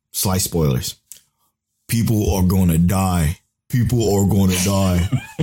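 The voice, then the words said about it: Imitates another person's voice. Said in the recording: “my Tell impression”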